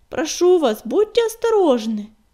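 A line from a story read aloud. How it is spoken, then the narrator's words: Agitated shouting. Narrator (Russian): взволнованно кричала она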